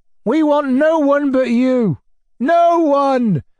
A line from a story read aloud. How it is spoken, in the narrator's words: the peasants suddenly wailed in chorus